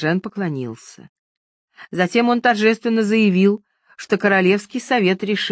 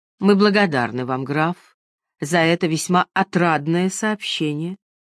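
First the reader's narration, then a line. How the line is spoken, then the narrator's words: Calm. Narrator (Russian): Франклин спокойно сказал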